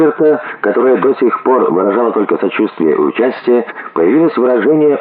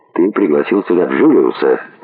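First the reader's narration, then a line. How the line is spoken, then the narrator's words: Quiet even voice. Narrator (Russian): сказал тихим, ровным голосом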